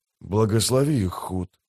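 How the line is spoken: Whisper. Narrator (Russian): прошептал Дукер

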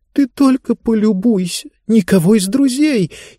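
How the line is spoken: Frightened whisper. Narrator (Russian): испуганно прошептала Диба

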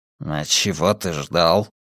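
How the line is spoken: Grumbled. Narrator (Russian): пробурчал Брекер

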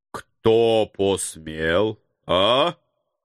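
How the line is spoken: Menacing, broad regional accent. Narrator (Russian): Грозно окая нахмурился староста калачинцев

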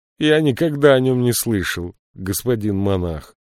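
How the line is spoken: Gloomy. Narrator (Russian): мрачно ответил Синетрис

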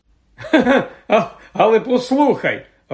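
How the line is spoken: Laughing. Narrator (Ukrainian): Рон засміявся

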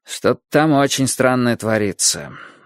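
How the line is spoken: Gloomy. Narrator (Russian): мрачно сказал Борис

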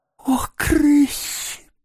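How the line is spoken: Mole's moan. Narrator (Russian): простонал крот

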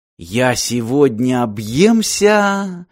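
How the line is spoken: Joyful boy. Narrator (Russian): радостно сказал пацан

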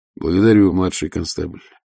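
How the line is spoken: Grim. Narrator (Russian): мрачно сказал Ваймс

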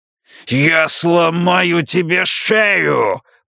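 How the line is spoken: Growled. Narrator (Russian): прорычал он

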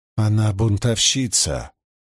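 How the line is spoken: Quiet, contemptuous. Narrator (Russian): В негромко сказанное слово Пивара вложила все свое презрение

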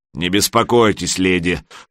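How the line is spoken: Deep-voiced small troll. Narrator (Russian): пробасил маленький тролль

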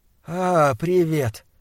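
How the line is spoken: Soft call. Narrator (Russian): мягко окликнул он

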